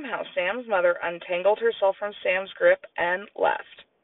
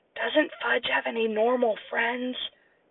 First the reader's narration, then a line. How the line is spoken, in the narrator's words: I whispered